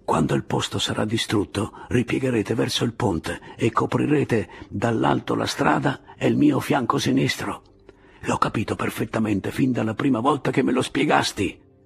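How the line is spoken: Whispering. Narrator (Italian): gli sussurrò Pilar

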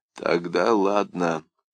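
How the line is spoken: Low hoarse voice. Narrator (Russian): понизил до хрипа голос Киндерман

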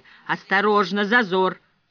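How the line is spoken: Droning loudspeaker voice. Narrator (Russian): снова прогудел голос из динамика

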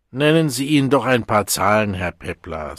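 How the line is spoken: Tired. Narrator (German): sagte der Direktor des Sprechens müde

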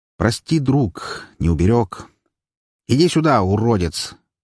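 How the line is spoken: Loud call. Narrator (Russian): Громко, а главное, бессмысленно позвал я

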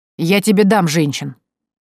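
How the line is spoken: Growled reply. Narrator (Russian): рыкнула в ответ Евгения

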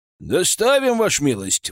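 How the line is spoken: Coachman's brisk reply. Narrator (Russian): бодро откликнулся извозчик

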